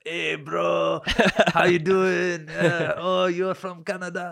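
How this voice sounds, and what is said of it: Put-on Colombian accent. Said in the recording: “he says in his like Colombian accent”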